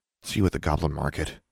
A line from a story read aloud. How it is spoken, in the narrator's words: muttered